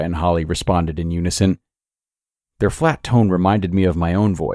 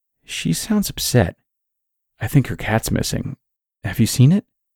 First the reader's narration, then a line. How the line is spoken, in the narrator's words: my mother's whispers over Holly's sobs